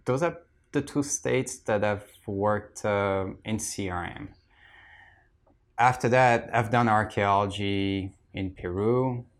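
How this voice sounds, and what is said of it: French accent. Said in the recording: “I'm French, yeah. Yeah, it's just my accent”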